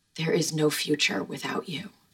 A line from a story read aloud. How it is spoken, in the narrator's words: He whispered